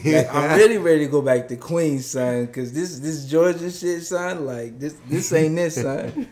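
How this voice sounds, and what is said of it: Put-on New York accent. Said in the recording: “New York? ... That's pretty good.”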